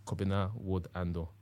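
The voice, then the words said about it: Put-on Ghanaian accent. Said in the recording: “I'm saying it with a Ghanaian accent”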